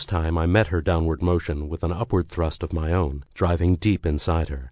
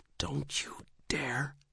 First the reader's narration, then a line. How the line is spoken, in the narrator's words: she hissed